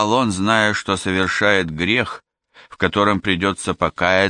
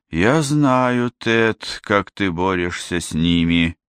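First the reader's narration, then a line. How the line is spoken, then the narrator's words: Sighing. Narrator (Russian): вздохнул отец Барнабас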